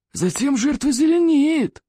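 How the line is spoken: Gleeful hiss. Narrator (Russian): радостно прошипел удушитель

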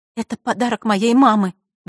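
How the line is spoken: Trembling female voice. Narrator (Russian): дрожащим голосом произнесла Василиса

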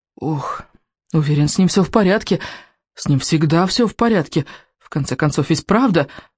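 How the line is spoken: Mumbling. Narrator (Russian): бормотал рыбинок

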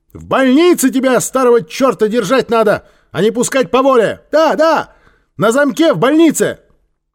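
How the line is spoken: Angry woman shouting. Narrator (Russian): сердито с улицы закричала

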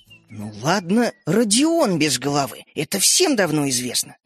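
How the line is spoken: Indignant. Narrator (Russian): возмущенно сказала мама

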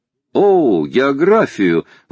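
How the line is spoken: Lively exclamation. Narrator (Russian): воскликнул с живостью Паганель

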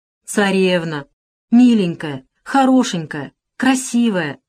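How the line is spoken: Pleading. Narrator (Russian): взмолилась Алиса

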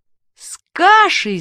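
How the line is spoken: Shouting. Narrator (Russian): закричал Мишка

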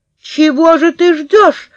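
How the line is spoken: Shout. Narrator (Russian): закричала я

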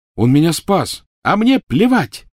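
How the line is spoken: Yelling. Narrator (Russian): завопила Гермиона

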